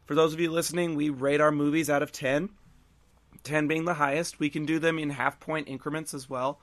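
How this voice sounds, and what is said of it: Slightly hoarse, fading voice. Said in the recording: “losing my voice a little bit”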